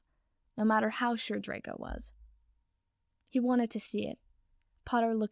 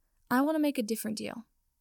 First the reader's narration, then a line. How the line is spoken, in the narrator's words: Draco said quickly